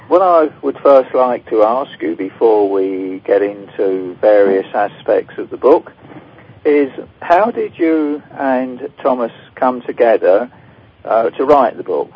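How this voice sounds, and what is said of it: British accent. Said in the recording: “I detect a British accent.”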